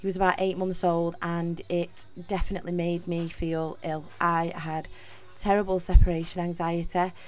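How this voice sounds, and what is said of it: Manchester (Mancunian) English accent. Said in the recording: “accent, I am from Manchester. I am a true Mancunian.”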